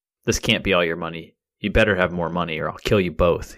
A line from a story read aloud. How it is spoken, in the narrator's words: he growled at the couple